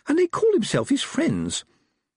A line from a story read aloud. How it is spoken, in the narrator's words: Letitia said indignantly